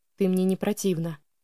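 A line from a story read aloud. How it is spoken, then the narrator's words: Quiet. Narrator (Russian): негромко произнес он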